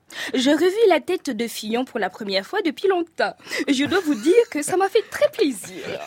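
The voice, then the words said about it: Put-on standard French accent. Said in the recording (French): “je vais vous parler de la France avec cette tonalité gauloise si douce aux oreilles de nos compatriotes ... je prends ma pilule d'accent français”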